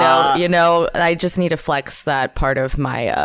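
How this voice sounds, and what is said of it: Usual voice. Nothing is said of it.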